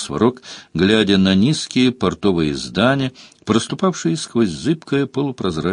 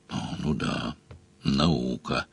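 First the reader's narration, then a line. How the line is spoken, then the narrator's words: Grumbling. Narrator (Russian): проворчал Сварог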